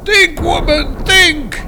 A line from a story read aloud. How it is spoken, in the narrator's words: roared Thor